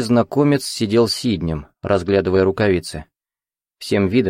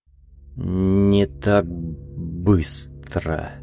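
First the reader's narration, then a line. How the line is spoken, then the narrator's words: Slow. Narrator (Russian): медленно проговорил незнакомец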